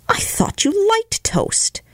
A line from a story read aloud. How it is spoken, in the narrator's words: she exclaimed with an injured air